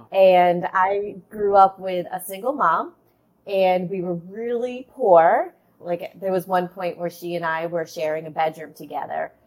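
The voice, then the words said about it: Boston accent. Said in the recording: “that's where you get the Boston accent from”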